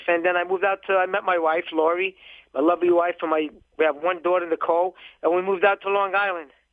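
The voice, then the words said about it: Brooklyn accent. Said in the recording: “I can tell from the accent, you're from Brooklyn ... it is a Brooklyn accent from The Sopranos”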